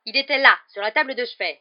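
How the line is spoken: Man yelling. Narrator (French): hurla-t-il

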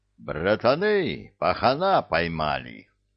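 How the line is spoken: Joyful announcement. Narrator (Russian): радостно сообщил капитан

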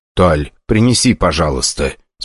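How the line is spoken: Calm. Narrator (Russian): спокойно проговорил худой

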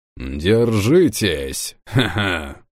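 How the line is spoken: Laughing. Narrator (Russian): хохотнул Берг

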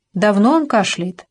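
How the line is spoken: Plain question. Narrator (Russian): спросила

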